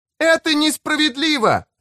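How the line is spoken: Shouting. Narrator (Russian): снова выкрикнула Рен

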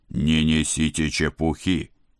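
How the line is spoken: Barking. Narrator (Russian): рявкнул шеф

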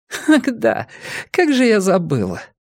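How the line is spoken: Hysterical giggle. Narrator (Russian): коротко и истерически хихикнув, сказала

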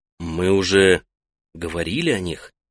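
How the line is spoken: Gentle reminder. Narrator (Russian): мягко напомнил Сое

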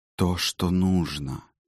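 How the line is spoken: Whisper. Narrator (Russian): прошептала королева

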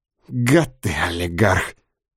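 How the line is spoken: Contemptuous, through teeth. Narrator (Russian): презрительно процедила Любка

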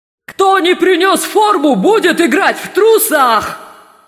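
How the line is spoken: Shouting. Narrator (Russian): закричал Думинг Тупс

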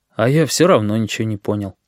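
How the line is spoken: Sad. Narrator (Russian): Мишка Маслюк грустно сообщил

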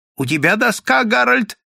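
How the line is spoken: Elderly man shouting. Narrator (Russian): крикнул пожилой

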